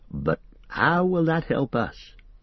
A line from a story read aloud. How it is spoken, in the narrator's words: asked Sam